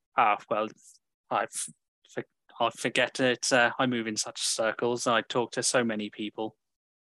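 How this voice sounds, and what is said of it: Put-on cultured wealthy accent. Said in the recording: “playing on the cultured, you know, wealthy accent”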